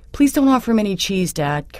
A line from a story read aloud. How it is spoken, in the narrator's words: Caroline pleaded